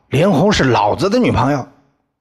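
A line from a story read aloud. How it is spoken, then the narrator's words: Shouting. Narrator (Chinese): 吼叫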